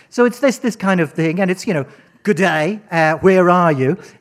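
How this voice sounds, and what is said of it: Put-on Australian accent. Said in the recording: “Why is it you do Australian accents”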